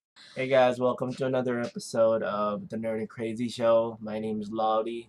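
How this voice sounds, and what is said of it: Low, just-woken-up voice. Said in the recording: “I just woke up, so if you guys notice my sexy voice”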